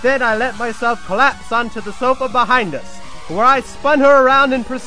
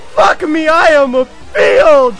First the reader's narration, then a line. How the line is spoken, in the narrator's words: screamed